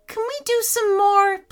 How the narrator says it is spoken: pleaded Aaron

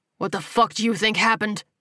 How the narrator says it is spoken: He snarled

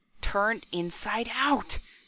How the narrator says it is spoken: he gasped hoarsely

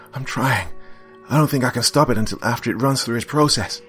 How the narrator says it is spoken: I heard him say in a frantic voice

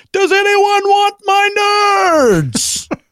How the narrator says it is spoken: screamed loudly to everyone in the room

